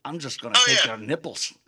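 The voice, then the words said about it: Imitated Scottish accent. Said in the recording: “He's got that Scottish accent.”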